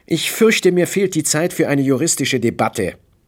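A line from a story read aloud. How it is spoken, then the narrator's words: Sharp. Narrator (German): sagte er scharf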